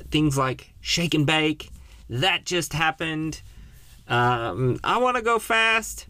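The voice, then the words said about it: Put-on accent. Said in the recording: “I tried to do a little accent there, I apologize.”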